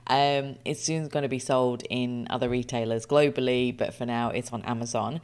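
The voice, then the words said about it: Excited voice. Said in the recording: “as you can hear from my voice, I am incredibly excited.”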